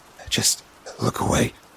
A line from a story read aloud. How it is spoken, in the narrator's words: Brock whispered